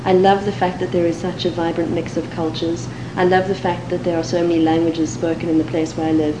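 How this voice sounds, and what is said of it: Cape Town South African English accent. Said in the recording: “My accent is a Cape Town accent, and to American ears probably sounds quite British.”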